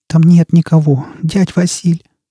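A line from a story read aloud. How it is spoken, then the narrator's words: Trembling, self-reassuring voice. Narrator (Russian): дрожащим голосом сказала Настя, пытаясь и себя убедить в этом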